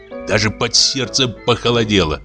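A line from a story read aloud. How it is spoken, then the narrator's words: Grumbled. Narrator (Russian): проворчал он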